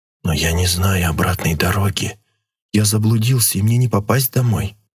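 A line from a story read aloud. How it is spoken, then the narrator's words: Quiet. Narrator (Russian): тихо проговорил Легор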